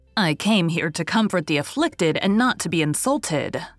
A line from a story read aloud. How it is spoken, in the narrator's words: said Mrs